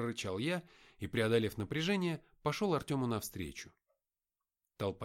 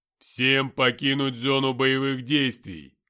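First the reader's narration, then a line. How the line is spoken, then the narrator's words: Repeated, less loudly. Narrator (Russian): повторил Артем, но на этот раз не так громко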